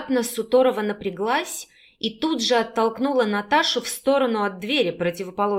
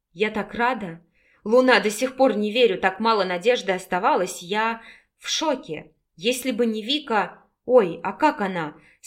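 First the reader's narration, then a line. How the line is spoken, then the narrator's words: Hoarse, agitated. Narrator (Russian): с волнением в голосе прохрипела Настя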